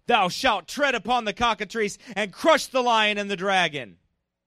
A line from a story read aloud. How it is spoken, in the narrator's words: the cardinals thundered forth in loud tones